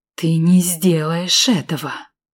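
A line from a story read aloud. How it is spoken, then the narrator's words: Slow, through gritted teeth. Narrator (Russian): Медленно сквозь зубы процедил он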